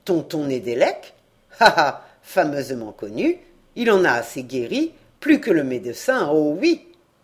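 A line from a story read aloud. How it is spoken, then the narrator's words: Violent, furious grumble. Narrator (French): un flot de sang à la face, toute une violence bouillonnant en tempête dans la gorge, Pierre Kerbiriou grommela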